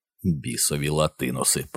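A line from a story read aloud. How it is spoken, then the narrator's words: Mutter. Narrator (Ukrainian): пробурмотів Рой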